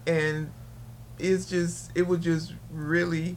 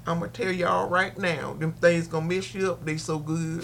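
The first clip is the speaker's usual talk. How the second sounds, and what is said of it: Put-on country accent. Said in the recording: “is it now time for me to do my country accent? ... Yes, please, do your country accent.”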